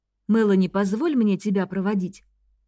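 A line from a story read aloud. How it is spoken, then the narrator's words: Soft question. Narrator (Russian): мягко спросил Рейн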